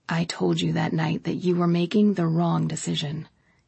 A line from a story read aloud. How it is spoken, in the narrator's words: he said, his voice low